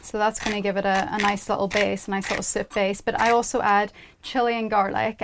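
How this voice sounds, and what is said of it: Northern Irish accent. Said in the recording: “it's my Northern Irish accent.”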